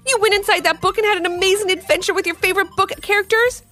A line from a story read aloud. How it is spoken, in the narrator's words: He shouted excitedly